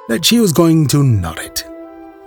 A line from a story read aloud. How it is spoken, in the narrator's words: began the sheriff's wife in a flurried voice